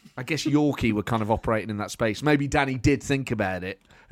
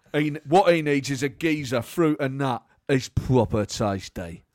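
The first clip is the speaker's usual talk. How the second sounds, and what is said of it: Imitates another person's voice. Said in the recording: “you were just tapping into Roy Hodgson there as well in that Danny Dyer impression”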